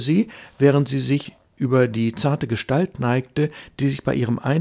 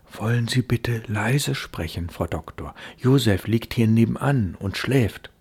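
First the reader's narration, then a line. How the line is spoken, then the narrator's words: Anxious whisper. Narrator (German): flüsterte sie, ängstlich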